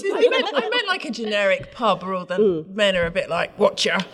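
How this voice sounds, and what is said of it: Impression of British pub gangster. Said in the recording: “Basically like British gangsters... All the men in my local pub... that was a really good impression”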